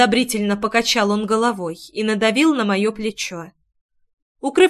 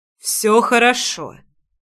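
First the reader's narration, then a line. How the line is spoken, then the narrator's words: Forced out with smile. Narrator (Russian): выдавил Ривенал с улыбку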